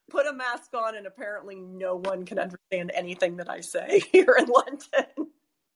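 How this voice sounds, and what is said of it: American accent. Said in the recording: “being an American living in London ... people didn't really understand my accent to begin with”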